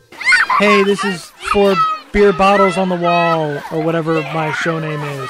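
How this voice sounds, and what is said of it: Imitates another person's voice. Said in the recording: “let me give you an impression... this is my impression of Kyle Posey... this is what his podcast sounds like now”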